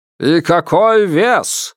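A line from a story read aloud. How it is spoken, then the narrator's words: Loud question through cupped hands. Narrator (Russian): громко спросил Торфенек, сложив ладони рупором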